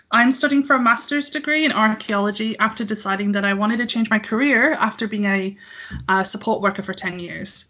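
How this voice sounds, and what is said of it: Mixed English and American accent. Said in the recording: “I live in Northwest England ... I did live in California for about 13 years, hence the weird accent”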